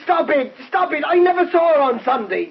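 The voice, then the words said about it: Shouting. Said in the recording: “You don't have to shout”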